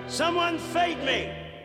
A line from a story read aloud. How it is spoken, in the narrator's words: hollered